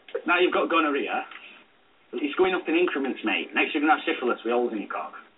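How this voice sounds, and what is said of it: Very heavy accent. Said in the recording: “they have that accent. They're very, very heavy in their voice.”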